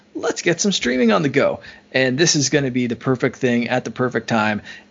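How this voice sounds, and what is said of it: Excited, unusually high-pitched voice. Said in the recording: “am I excited, if you couldn't tell from my voice reaching octaves that it hasn't in a while”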